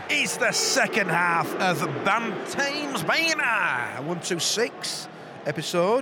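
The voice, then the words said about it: Silly put-on voice. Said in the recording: “I like to do a silly voice.”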